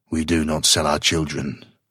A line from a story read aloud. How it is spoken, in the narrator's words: he growled, his chin jutting truculently